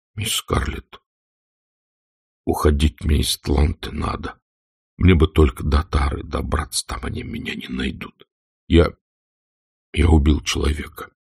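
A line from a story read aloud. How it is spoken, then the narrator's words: Whisper. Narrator (Russian): Сэм зашептал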